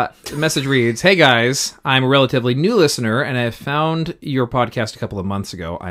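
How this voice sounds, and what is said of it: Usual voice. Nothing is said of it.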